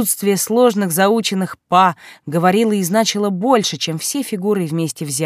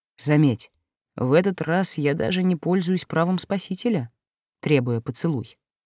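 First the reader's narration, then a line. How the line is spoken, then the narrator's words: Muffled joking voice. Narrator (Russian): глухим голосом пошутил Олдер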